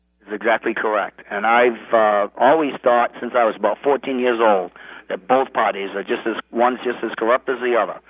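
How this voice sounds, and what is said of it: New England accent. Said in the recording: “I can tell by your accent you're a New Englander.”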